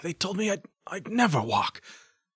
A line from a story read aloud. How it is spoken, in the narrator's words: he said, weakly but stubbornly still